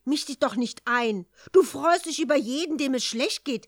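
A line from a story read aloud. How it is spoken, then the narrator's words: Angry heated outburst. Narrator (German): ereiferte sich zornig die Toffelfee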